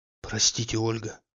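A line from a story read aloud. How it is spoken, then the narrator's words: Mumbling. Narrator (Russian): бормотал он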